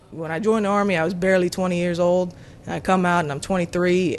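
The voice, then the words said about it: Southern US accent. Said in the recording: “She speaks with a southern accent, a legacy of years growing up in Texas.”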